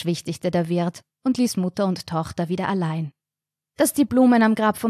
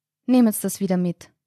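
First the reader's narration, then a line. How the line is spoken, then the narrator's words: Mother speaking calmly. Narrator (German): sagte die Mutter ruhig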